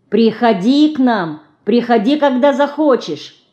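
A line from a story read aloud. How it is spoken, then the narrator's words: Shouted through window. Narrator (Russian): крикнула в окошко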